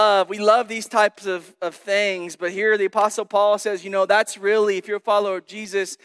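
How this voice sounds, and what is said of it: Usual voice. Nothing is said of it.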